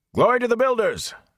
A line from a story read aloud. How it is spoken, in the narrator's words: A number of others shouted